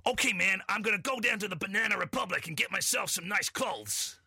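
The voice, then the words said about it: Put-on American accent, slightly gruff. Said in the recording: “Shall I do my American accent? ... Not bad. ... It's the put on. This part of it makes it sound a little put on. ... the enunciation is perfect. ... You don't like the gruffness. ... It just sounds like a character.”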